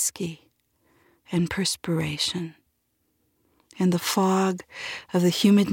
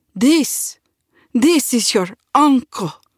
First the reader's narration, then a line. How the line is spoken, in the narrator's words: my father cried, as though he had just won every bounty worth winning in the entire universe